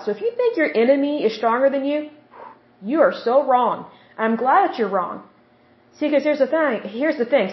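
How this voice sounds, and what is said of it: Oklahoma accent. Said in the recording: “excuse my accent there with Oklahoma. Sometimes I have to cover that up.”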